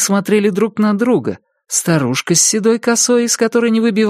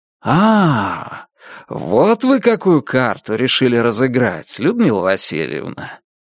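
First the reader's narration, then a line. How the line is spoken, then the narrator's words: Drawling. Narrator (Russian): протянул Макар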